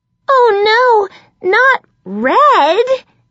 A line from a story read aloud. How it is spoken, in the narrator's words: I screamed